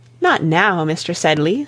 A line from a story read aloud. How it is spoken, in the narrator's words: said Rebecca, with a sigh